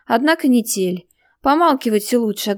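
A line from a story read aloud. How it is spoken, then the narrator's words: Snapping retort. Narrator (Russian): огрызнулась Катя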